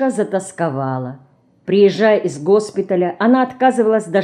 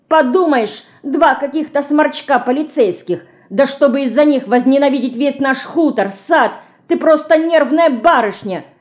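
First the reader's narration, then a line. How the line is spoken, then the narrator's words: Shouting. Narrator (Russian): кричала Динка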